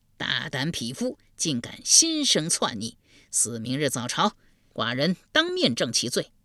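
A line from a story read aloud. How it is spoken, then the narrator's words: Furious. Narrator (Chinese): 惠公大怒，说道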